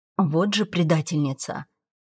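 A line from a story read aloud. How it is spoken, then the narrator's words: Grumbling to herself. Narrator (Russian): проворчала про себя я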